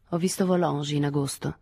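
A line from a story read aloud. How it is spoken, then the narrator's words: Neutral tone. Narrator (Italian): disse in tono neutro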